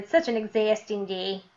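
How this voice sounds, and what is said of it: Put-on Midwest American accent. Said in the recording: “mimicking my Midwest accent.”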